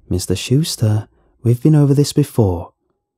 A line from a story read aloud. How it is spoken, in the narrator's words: she started in a warm, friendly voice